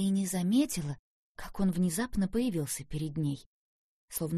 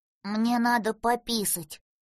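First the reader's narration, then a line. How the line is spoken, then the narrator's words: Offended, reproachful declaration. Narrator (Russian): заявил он обиженно, словно попеняв ей за недосмотр и дурное обращение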